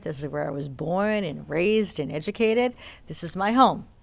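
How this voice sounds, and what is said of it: Boston accent. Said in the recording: “I do have a Boston accent.”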